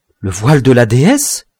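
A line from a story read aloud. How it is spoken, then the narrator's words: Trembling exclamation. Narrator (French): s'écria Salambo, toute frémissante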